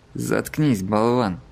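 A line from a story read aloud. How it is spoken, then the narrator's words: Barked. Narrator (Russian): рявкнул Сомерс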